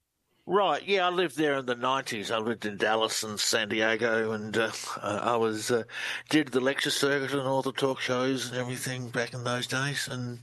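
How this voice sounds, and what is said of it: Australian accent. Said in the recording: “Australian researcher. Love the accent.”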